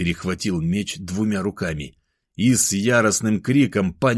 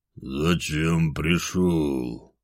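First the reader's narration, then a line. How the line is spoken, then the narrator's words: Low, muffled. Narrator (Russian): Орлас глухо произнес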